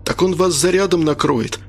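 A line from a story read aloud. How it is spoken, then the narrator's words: Exclaimed. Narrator (Russian): воскликнул Арцебашев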